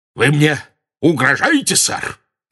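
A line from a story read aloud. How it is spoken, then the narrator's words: Very loud barking. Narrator (Russian): Рявкнул он так громко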